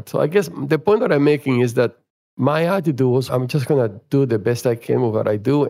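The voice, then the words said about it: Noticeable non-native accent. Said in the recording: “my accent is still here and it was much worse 40 years ago ... I just speak differently”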